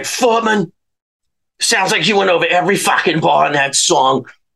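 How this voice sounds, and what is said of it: New York accent impression. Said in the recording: “in his New York voice.”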